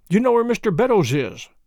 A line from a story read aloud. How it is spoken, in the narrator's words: cried Trevor